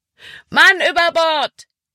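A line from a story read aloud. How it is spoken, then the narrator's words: Called out. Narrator (German): rief Caleb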